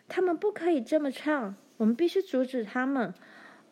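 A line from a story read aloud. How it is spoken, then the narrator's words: Shouting. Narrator (Chinese): 他叫了起来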